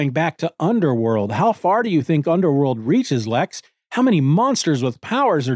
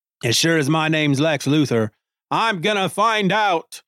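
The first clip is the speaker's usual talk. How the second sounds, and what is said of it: Deliberately bad put-on accent. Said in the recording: “in my horrible accent”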